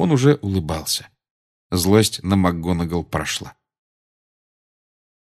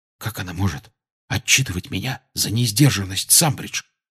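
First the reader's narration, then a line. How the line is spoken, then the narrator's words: Whisper. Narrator (Russian): шепнул Гарри Рону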